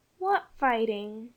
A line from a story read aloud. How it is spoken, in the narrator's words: asked Jane sleepily